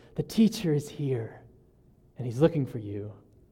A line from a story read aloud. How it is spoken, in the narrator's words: her sister whispers in her ear